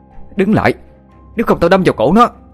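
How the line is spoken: Near-shouting. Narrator (Vietnamese): Sophia nói như hét lên

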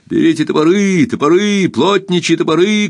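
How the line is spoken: Shouting. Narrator (Russian): кричал он

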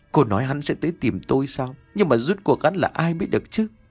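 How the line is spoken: Stammering. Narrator (Vietnamese): trong miệng cô lắp bắp

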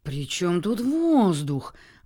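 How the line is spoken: Indignant exclamation. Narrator (Russian): воскликнула она возмущенно

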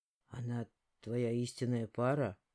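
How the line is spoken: Strained, forced out. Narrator (Russian): выдавил из себя Джейс

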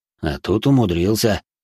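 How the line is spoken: Snorting, father. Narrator (Russian): хмыкнул отец

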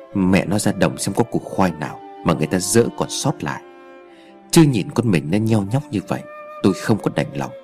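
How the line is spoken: Weak, faint. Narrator (Vietnamese): Anh Tư giọng thều thào nói

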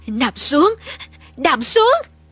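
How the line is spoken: Panting. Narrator (Vietnamese): Cậu thở hổn hển

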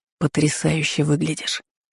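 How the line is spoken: Whisper. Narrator (Russian): прошептал Аргвар

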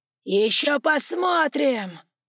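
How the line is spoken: Roaring. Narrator (Russian): взревел Альберт

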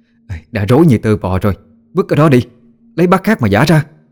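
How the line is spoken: Annoyed loud shout. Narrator (Vietnamese): Cô Hiền bực mình quát lớn

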